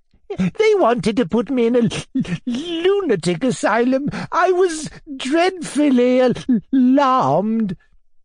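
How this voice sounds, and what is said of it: Whining, stammering voice. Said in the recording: “stammered the prince in a whining voice.”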